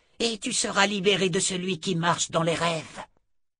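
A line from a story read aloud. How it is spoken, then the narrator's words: Grating voice. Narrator (French): dit-elle d'une voix grinçante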